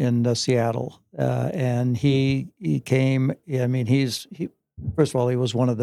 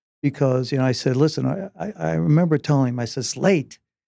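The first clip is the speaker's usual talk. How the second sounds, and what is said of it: Emotional, slightly choked-up voice. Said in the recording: “a little emotional.”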